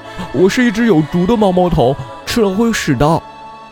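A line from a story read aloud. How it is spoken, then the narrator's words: Shouting. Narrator (Chinese): 小猪对杀手大叫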